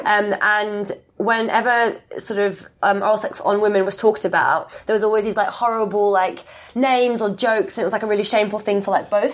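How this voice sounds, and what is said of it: Australian accent. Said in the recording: “I'm from Australia, in case you couldn't get from my confusing accent”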